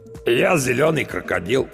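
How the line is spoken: Hoarse, cracking bass. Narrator (Russian): подтвердил Сэм хриплым, ломающимся баском

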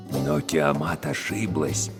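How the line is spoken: Lowered voice translating. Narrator (Russian): перевел шепот Гюльшамаш Абдулла, сам непроизвольно понижая голос

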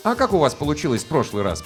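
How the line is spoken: Plain. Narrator (Russian): спросил Ром

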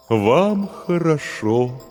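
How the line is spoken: Mournful, droning voice. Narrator (Russian): заунывным голосом произнес терем

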